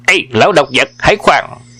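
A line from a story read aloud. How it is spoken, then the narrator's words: Shouted. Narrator (Vietnamese): Miệng quát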